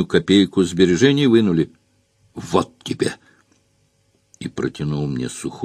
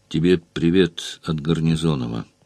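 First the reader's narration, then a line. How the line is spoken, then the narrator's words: Quiet interruption. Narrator (Russian): Негромко перебил я его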